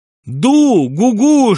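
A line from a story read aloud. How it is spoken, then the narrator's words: Shouting over roaring water. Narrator (Russian): что-то кричал Шариков сквозь рев воды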